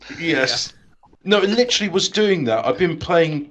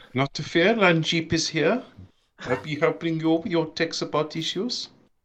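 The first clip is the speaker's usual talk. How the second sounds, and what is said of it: Put-on Indian accent. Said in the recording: “do my Indian voice, it sounds like I'm a Gestapo agent”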